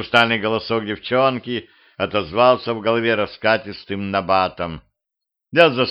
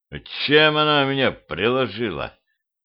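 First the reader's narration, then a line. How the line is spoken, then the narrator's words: Hoarse question. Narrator (Russian): Хрипло спросил я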